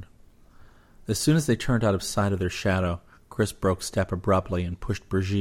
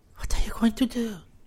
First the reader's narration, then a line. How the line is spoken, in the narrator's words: whispered